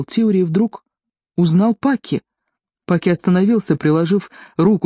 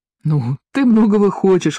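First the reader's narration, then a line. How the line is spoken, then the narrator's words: Exclamation. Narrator (Russian): воскликнул Паки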